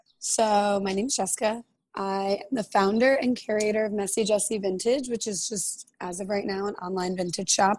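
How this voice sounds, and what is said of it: Strained, partly lost voice. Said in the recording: “I am losing my voice a little bit, but I am going to power through it.”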